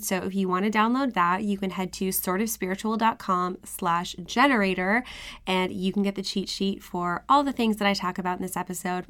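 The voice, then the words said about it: Slightly rusty, hoarse voice. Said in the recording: “lost my voice. It's finally back. It's still a little rusty”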